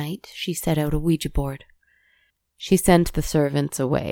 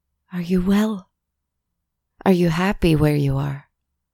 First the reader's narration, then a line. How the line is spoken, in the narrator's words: asked